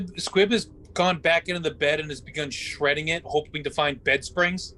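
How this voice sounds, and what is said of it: Usual voice. Nothing is said of it.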